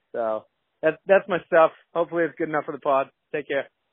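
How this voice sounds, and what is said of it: Massachusetts accent. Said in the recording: “I love the accent. You haven't lost the accent. ... the fella from Mass”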